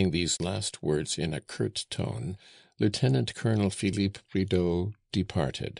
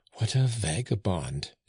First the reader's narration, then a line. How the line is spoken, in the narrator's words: exclaimed Flore